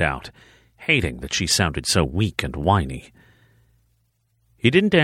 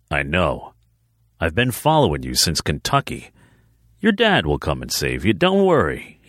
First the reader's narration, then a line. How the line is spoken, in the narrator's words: he said, laughing suddenly into her ear